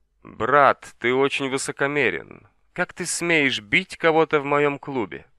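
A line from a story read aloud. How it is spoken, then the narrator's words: Sinister laughter. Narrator (Russian): Джо Джинхао сидел на стуле, который ему подала сестра Донг-Донг, скрестив ноги и зловеще смеясь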